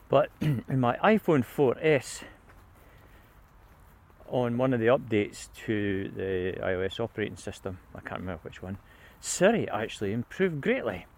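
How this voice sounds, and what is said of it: Scottish accent. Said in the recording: “Siri and how it doesn't recognise the Scots accent ... I was beginning to recognise my accent”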